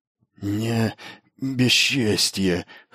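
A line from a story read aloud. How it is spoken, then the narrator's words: Hoarse, forced out. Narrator (Russian): хрипло выдавил слово Бас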